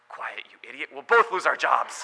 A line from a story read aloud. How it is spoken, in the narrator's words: the lion whispered